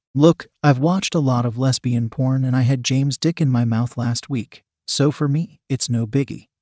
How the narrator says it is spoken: she said, calmly

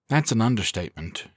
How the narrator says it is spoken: she replied smoothly

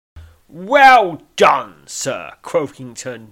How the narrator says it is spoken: he bellows

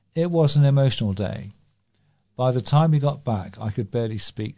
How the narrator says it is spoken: she said

